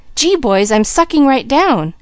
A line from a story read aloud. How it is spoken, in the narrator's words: suddenly he cried